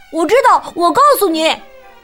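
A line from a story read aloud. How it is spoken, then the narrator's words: Loud. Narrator (Chinese): 埃里克大声说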